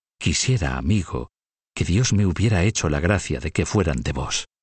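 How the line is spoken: Embarrassed joyful murmur. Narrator (Spanish): como si este exceso de alegría la pusiera en mal lugar ante él, murmuró

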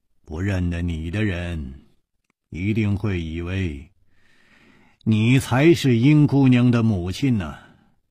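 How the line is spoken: Sighing. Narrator (Chinese): 叹了一口气说

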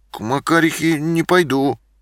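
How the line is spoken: Uncertain speech. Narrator (Russian): неуверенно сказал я

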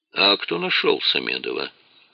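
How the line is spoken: Quiet question. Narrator (Russian): тихо спросил министр национальной безопасности

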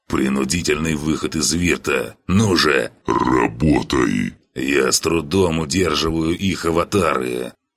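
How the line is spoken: Impatient strained rasp, god. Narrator (Russian): Бог нетерпеливо и натужно прохрипел

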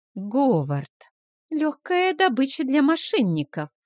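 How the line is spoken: Sorrowful sigh. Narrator (Russian): сокрушенно вздохнула Вилма

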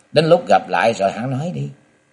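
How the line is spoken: Smiling. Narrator (Vietnamese): Ngọc Long mỉm cười nói

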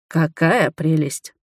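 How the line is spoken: Muttered. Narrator (Russian): пробормотал я

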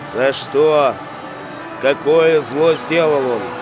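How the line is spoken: Plain. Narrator (Russian): спросил Пилат

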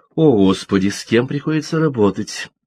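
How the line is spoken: Mock sigh. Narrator (Russian): притворно вздохнула Джилл

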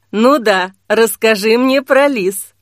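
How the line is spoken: Scornful snort. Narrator (Russian): фыркнул Ахлейн

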